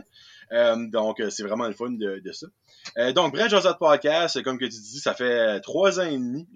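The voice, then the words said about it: Acadian French accent. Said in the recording (French): “mon accent va vendre le punch. Je viens du Nouveau-Brunswick, je suis un, un Acadien.”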